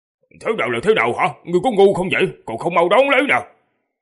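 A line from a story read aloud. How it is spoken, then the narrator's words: Irritated angry shout. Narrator (Vietnamese): Điện Bất Dịch bỗng đâm tức giận, cáu kỉnh quát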